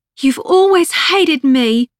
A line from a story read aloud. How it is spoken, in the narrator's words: Rose shouted, crying now